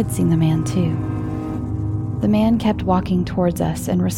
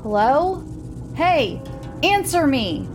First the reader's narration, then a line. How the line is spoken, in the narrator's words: He ... yells into the night